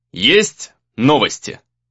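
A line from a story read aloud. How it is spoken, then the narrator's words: Curt question. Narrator (Russian): спросил он отрывисто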